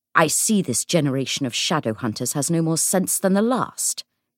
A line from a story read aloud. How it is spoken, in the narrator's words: he said sharply